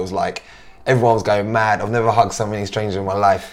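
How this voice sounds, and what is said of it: Slightly hoarse voice. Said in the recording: “I know my voice is not too bad today, but ... literally, hoarse, ... yeah, it's a little bit hoarse.”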